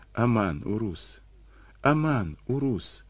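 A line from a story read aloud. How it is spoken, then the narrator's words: Dying girl's plaintive whisper. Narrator (Russian): шептала девочка, с этой жалобной мольбой о помощи, она и скончалась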